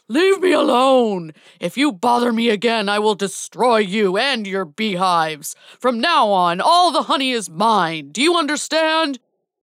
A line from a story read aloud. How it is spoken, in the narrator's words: To scare the bees away, the bear roared loudly